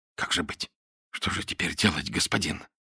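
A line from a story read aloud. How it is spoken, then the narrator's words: Barely audible whisper. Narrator (Russian): Чуть слышно, едва разлепляя губы, зашептал один из них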